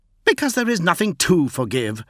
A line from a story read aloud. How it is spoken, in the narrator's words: snapped Fulgrim